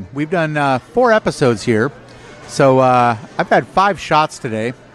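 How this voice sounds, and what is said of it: Slightly slurred drunk speech. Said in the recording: “I think I feel my speech slurring ... if I'm slurring my speech a little bit, which I'm 90% sure I am.”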